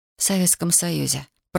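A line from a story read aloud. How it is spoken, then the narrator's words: Muttered. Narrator (Russian): пробормотала Татьяна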